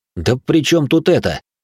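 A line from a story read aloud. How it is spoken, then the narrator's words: Indignant. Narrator (Russian): возмущенно нахмурился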